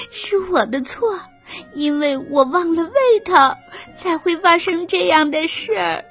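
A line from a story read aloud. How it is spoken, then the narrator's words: Crying. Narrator (Chinese): 贝尔哭着说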